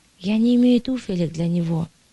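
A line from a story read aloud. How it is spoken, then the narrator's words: Mother sighing. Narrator (Russian): вздохнула мать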